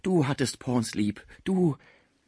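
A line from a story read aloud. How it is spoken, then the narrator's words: Exclaiming. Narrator (German): rief Schmucke beim Anblick des Burschen aus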